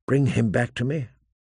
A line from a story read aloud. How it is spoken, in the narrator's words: she whispered